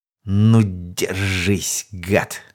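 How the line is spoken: Malicious smirk. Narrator (Russian): Злобно усмехнулся

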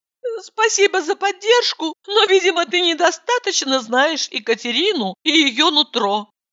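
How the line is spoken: Timid babble. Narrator (Russian): пролепетала

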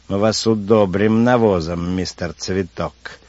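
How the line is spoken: Mocking squeaky voice. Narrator (Russian): насмешливо писклявит

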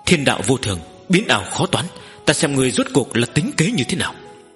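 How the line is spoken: Muttering. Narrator (Vietnamese): Nữ hoa lầm bầm nói

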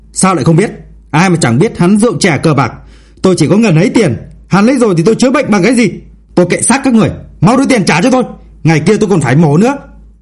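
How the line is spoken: Loud angry shout from man. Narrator (Vietnamese): Người đàn ông quát lớn

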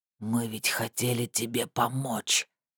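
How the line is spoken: Hoarse wheeze. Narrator (Russian): прохрипел он

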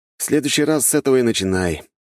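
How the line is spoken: Sighing. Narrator (Russian): вздохнул я

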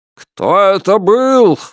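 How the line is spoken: Roared. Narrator (Russian): взревел Альберт Гендрон

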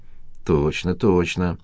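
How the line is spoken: Muttering. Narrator (Russian): пробормотала Ольга Евгеньевна

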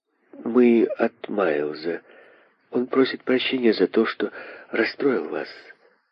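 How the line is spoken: Slow, distinct, quiet. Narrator (Russian): медленно и отчетливо произнесла Лиза негромким голосом

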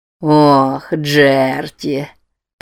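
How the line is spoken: Purring. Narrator (Russian): Промурлыкал Норман

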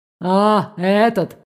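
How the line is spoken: Disappointed breathy exclamation. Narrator (Russian): С каким-то разочарованием выдохнул Эвот

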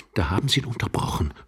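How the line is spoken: Young man's gritted whisper. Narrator (German): flüsterte der junge Mann knirschend

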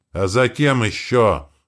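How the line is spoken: Growled. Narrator (Russian): рыкнул он

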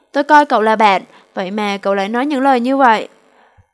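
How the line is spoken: Furious shout. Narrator (Vietnamese): Lâm Nam Vũ giận sôi máu, hét

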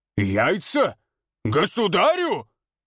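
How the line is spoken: Menacing roar. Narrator (Russian): грозно взревел Николай

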